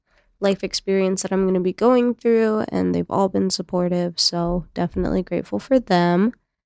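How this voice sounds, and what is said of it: Sick, tired-sounding voice. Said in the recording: “I don't know if you can tell in my voice, but we have been sick ... I am just beyond exhausted ... I'm tired”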